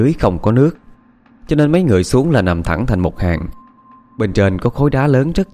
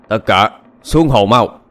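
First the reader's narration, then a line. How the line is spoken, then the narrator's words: Shout. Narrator (Vietnamese): Tên đầu trâu quát lên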